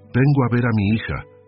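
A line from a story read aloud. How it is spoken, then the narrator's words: Loud, carrying announcement. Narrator (Spanish): anunció Felisa al mayordomo, con la voz alta de quien busca ser escuchada por toda la casa, no solo por quien tiene delante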